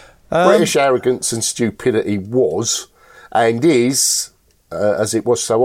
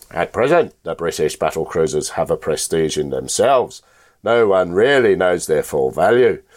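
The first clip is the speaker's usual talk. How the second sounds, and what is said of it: Imitates another person's voice. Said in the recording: “my wonderful impersonation ... I'm going to be Winston Churchill”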